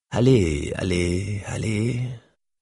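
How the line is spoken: Muttered under breath. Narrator (French): marmonné dans sa barbe

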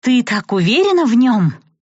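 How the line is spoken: Exasperated exclamation. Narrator (Russian): Не выдержав, воскликнула в этот момент Милена

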